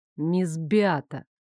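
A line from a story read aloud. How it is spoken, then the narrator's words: Icy tone. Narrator (Russian): Настолько ледяным тоном начал королевский дознаватель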